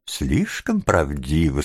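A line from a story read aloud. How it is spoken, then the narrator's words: Old lady laughing heartily. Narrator (Russian): сказала старая леди, от души смеясь своей собственной остроте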